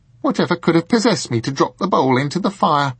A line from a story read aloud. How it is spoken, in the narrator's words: she exclaimed aloud